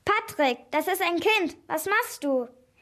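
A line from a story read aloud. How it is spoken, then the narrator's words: Woman's horrified cry. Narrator (German): Die Frau rief entsetzt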